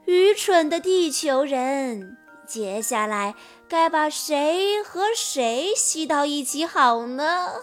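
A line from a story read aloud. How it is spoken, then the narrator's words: Wild laughter. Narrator (Chinese): 茨尔忘乎所以的大笑着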